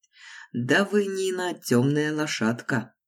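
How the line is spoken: Laughing. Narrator (Russian): засмеялся Юрий

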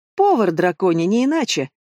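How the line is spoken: Gleeful giggle. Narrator (Russian): радостно захихикала Шиза

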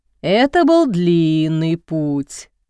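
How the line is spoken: Playful drawl. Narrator (Russian): шутливо протянул папа

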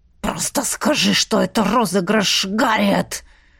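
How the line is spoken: Cutting hiss from husband. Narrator (Russian): шипел мой благоверный, препарируя слова острым языком

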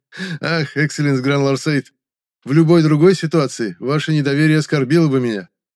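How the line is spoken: Good-natured laugh. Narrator (Russian): незлобно рассмеялся рассказчик

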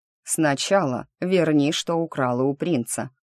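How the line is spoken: Cold. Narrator (Russian): холодно произнес маг

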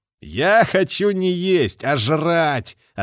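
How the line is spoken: Laughing reply. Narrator (Russian): ответил капитан, смеясь

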